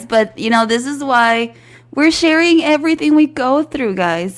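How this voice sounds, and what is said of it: Voice affected by a cold. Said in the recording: “my voice might sound a little ugly because I am currently fighting a cold”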